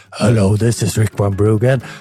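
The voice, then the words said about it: Imitates another person's voice. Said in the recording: “I'm going to pretend to be Rick.”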